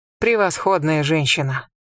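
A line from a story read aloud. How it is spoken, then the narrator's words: Muttering. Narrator (Russian): пробормотал Имхотеп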